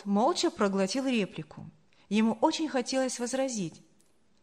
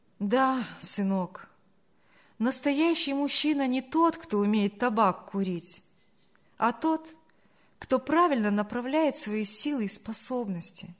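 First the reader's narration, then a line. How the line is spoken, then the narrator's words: Sad speech. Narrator (Russian): грустно проговорила Саша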